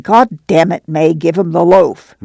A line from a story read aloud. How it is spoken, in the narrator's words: Al said snarlingly